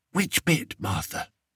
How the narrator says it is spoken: whispered Daisy

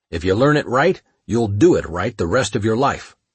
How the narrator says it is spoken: Prezenka would growl

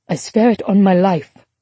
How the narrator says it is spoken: Ava said firmly

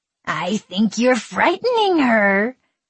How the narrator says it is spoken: Kiernan rasped in snarling, fidgeting pleasure

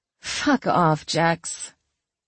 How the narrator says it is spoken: She chuckled and said

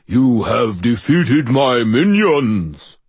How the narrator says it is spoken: I boomed in my most overblown voice

